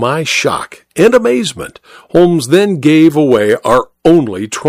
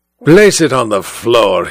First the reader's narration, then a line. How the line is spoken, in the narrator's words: he growled